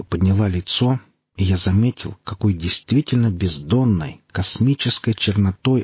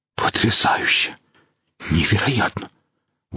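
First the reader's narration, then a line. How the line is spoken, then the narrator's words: Breathless awe. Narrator (Russian): выдохнул Костоправ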